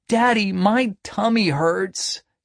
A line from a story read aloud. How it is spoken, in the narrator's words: he moaned